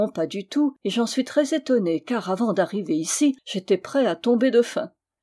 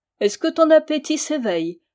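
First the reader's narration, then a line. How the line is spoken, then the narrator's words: Laughing reply. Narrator (French): lui répondit-elle en riant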